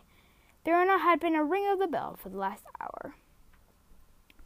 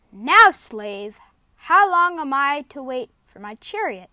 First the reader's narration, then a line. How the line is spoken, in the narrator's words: thundered the witch